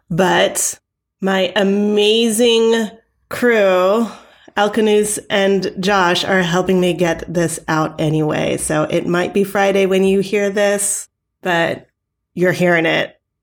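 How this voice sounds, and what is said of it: Sick-sounding voice. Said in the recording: “you can probably hear in my voice, I've been sick all week”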